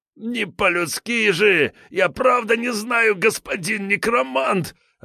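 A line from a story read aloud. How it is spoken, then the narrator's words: Panicked wailing, leader. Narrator (Russian): обливаясь потом, завопил предводитель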